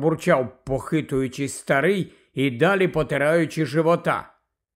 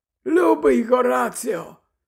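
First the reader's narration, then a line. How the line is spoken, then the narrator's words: Joyful explaining. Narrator (Ukrainian): радісно пояснив Дамблдор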